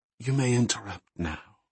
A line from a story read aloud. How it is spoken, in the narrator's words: she whispered